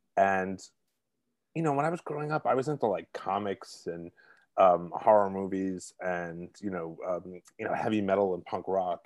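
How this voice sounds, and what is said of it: Brooklyn New York accent. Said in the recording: “I'm originally from Brooklyn, if you can't tell by the accent ... provincial South Brooklyn”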